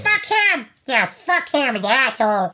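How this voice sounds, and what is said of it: Imitates another person's voice. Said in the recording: “He's kind of scary. ... That was my impression.”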